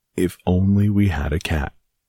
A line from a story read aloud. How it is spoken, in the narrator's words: sighed the very old woman